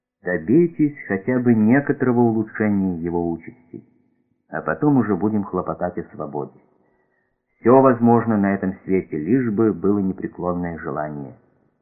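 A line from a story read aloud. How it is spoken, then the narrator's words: Quiet, said. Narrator (Russian): тихо сказал Сашенко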